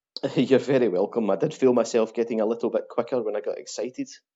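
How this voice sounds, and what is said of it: Scottish Glaswegian accent. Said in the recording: “I love listening to the Scottish accent ... Glasgow”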